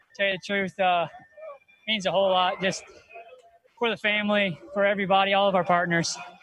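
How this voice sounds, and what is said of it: Out of breath. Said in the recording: “I'm out of breath right now”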